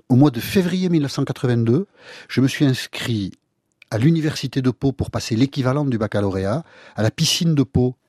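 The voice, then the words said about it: Basque-accented French. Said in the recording (French): “votre accent basque”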